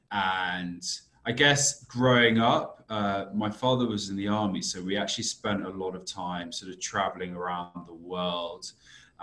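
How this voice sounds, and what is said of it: British accent. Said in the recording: “as I'm sure you can tell from my accent, I'm originally from the UK.”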